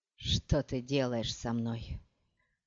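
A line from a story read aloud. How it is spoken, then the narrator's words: Breathy exhale. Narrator (Russian): выдохнул Хейт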